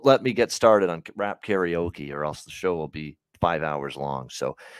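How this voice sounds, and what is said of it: Usual voice. Nothing is said of it.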